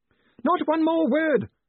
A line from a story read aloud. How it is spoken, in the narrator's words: screamed Gwynium